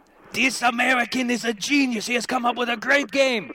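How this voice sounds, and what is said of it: Weak attempt at German accent. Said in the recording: “That was my attempt in a German accent. It wasn't very good.”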